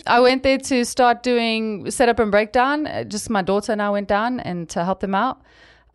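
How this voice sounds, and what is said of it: South African accent. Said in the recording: “That's a South African coming out. ... Was that the accent that got you the job?”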